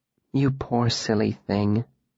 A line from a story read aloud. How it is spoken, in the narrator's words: Denna said softly